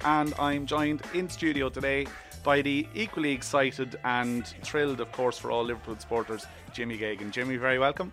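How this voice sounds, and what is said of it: Extremely hoarse voice. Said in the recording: “I'm an extremely hoarse and still marginally hungover”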